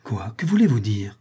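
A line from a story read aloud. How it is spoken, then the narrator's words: Monk's agitated exclamation. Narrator (French): s'écria le moine près de se trahir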